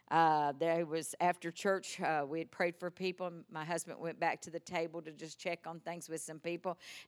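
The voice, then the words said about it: Texas accent. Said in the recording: “my Texas accent, I get misunderstood”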